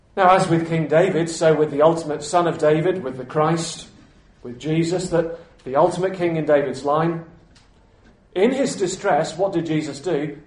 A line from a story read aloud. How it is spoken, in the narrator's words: He cried out to God